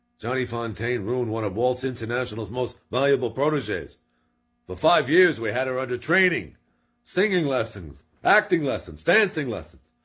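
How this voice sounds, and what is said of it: Imitates another person's voice. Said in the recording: “I'm going to do my best to do a John Marley impersonation of Jack Walsh”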